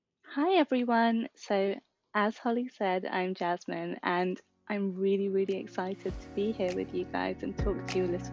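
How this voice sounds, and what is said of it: British accent. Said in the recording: “I love your accent ... I think the British accent sounds so much cooler than American accent.”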